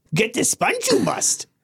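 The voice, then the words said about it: Yoda impression. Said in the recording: “I was doing a really good Yoda ... That's pretty good.”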